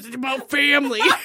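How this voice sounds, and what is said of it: Imitates another person's voice. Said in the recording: “this is my impression of Vin Diesel too!”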